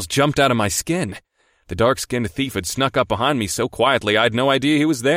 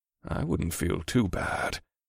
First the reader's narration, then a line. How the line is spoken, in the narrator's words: Scourge replied quietly